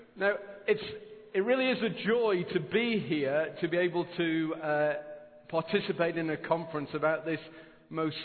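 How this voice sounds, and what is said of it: Non-local, sweet-sounding accent. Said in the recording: “please don't get too giddy about my accent ... I know it sounds impressive ... the sweet way by which I say it”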